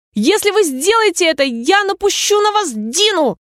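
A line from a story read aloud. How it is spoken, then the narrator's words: Shouting with full force. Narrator (Russian): Алиса крикнула, что было сил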